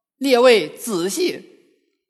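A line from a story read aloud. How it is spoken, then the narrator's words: Alarmed hurried cry. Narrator (Chinese): 悟空心惊，忙叫道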